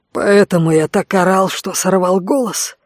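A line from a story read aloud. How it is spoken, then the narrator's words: Hoarse wheeze. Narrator (Russian): просипел Конт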